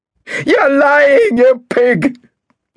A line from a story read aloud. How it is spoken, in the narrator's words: shouted Marcus, in the strange, shrill voice of an hysterical woman